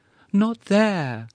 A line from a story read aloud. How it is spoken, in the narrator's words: cried the muffled voice imploringly